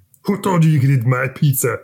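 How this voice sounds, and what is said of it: Imitates another person's voice. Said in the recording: “That was a terrible impression.”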